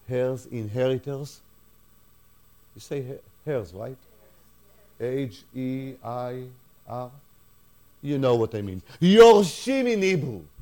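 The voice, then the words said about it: Foreign-accented English. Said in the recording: “forgive my accent”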